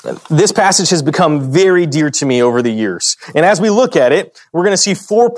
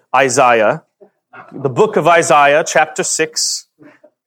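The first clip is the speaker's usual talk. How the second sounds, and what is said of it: Attempted British accent. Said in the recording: “That's going to be my only attempt at a British accent tonight.”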